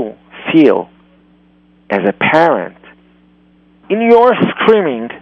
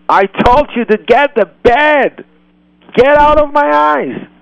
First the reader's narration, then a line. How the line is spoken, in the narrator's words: you yell